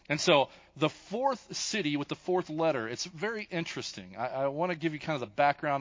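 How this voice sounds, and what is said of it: Kentucky accent. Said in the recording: “I'm going to use very much my Kentucky accent.”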